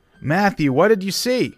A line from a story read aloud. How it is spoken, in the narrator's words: shouted